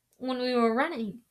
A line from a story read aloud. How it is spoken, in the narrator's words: Hermione suggested anxiously